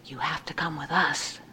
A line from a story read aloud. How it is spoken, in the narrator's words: whispered